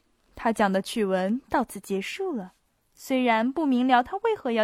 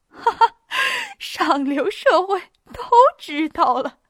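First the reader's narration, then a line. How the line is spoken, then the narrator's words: Speaking through laughter. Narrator (Chinese): 她透过笑声说道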